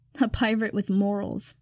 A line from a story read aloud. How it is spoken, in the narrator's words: Takaoka sneers